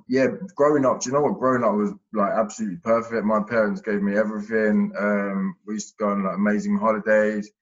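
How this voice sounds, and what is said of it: Mild Essex English accent. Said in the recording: “You've got the accent, ain't ya? ... I've got an accent, yeah ... You've got a bit of it ... Can hear a bit of your accent from there.”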